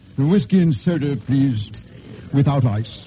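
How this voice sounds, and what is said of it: Precise English accent. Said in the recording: “in his precise English accent”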